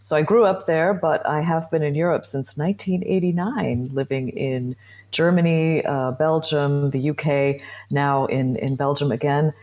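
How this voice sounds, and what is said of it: American English accent. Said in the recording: “You can probably hear from my accent that I come from the US.”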